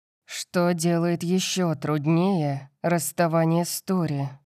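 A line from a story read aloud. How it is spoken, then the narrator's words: Dramatic moan. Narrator (Russian): простонал Калиб, драматично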